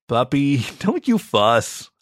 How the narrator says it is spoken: I laughed

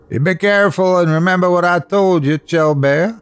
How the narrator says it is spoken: hollered after

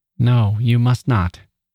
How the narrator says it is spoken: she said, coming back to the present nervously

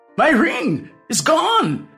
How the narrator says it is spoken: exclaimed

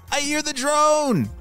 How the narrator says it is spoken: he shouted

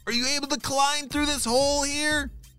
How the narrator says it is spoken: He shouted

